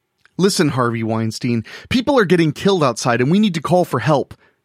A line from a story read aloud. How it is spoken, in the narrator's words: she blurted